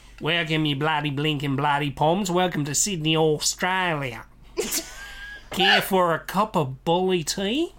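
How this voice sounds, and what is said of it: American's fake Australian accent, New Zealandish. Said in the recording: “my impression of an American doing an Australian accent, which is actually pretty much New Zealandish”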